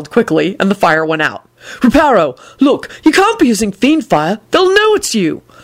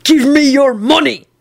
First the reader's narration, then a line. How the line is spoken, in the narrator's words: he snarled threateningly